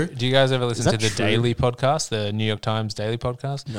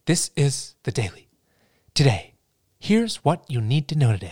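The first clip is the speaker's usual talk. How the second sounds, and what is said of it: Nerdy public radio host voice. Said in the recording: “he sounds quite a bit like Ira Glass... this very similar kind of like nerdy talk radio, like public radio voice”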